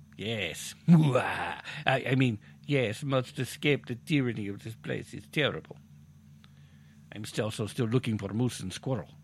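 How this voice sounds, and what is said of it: Put-on foreign accent that shifts. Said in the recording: “Did that guy's accent just change?”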